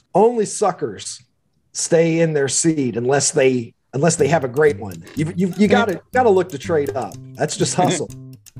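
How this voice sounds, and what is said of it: Slight Kentucky drawl. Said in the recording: “I noticed something of an accent... I am a Kentuckian by birth and lived there long enough that I think the drawl is going to be with me forever... this is probably as much accent as I'm going to lose”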